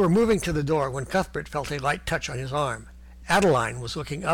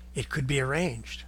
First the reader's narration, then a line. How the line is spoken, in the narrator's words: she whispered softly